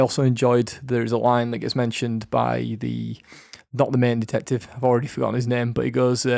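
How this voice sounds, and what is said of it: Usual voice. Nothing is said of it.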